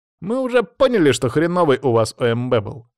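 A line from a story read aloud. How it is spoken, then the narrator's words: Smirking snort. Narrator (Russian): хмыкнул Саня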